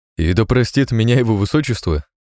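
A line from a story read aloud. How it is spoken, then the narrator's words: Merry chuckle. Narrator (Russian): хохотнул весело Долгорукий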